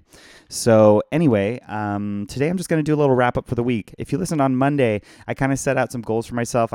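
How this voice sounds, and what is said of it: Hoarse, tired voice. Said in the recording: “I'm hoarse from it, and I'm tired from it.”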